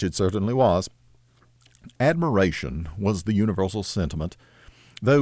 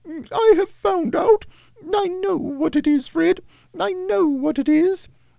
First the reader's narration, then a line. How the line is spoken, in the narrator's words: the plump sister, falling into a similar state, cried out